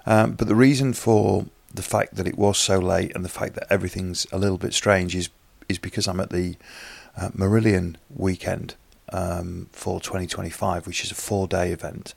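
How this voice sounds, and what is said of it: Tired, fatigued voice. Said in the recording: “it was a late night, which you can probably hear in my voice... I'm feeling a little bit fatigued this morning”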